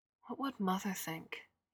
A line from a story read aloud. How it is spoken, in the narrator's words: murmured